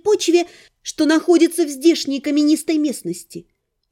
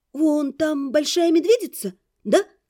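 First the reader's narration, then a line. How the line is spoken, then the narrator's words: Uncertain question. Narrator (Russian): неуверенно спросила я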